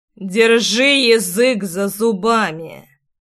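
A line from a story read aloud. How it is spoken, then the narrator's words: Through clenched teeth. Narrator (Russian): процедил Ривеналс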